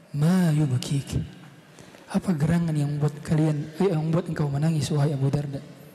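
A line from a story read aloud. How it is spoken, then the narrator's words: Asking again. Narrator (Indonesian): perawi yang melihat keadaan Abu Darda menangis lagi-lagi bertanya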